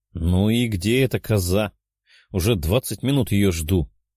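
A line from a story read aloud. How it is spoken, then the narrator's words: Displeased healer grumbling. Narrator (Russian): недовольно ворчала целительница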